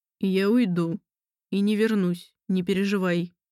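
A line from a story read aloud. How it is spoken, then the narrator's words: Muffled, deeply emotional voice. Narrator (Russian): проговорил он глухим голосом, в котором сквозило столько эмоций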